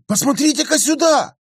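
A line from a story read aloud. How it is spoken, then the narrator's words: Sudden cry. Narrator (Russian): Внезапно вскрикнул профессор Йорк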